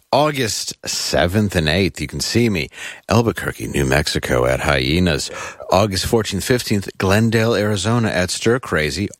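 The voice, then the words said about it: Smooth radio announcer voice. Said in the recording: “I just like how you get smooth when you do these... I read it in my very radio voice.”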